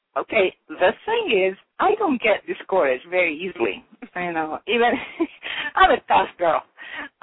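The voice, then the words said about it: Noticeable accent in English. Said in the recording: “me with my accent getting in the way everywhere, ... You can hear my accent, I'm sure.”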